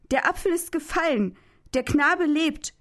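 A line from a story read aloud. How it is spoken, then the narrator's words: Relieved shout. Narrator (German): rief Stauffacher erlöst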